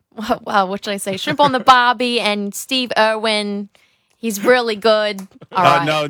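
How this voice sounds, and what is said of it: Failed Australian accent, sounds British-southern. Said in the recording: “He turned British... It went to a British accent... With a little southern twang to it.”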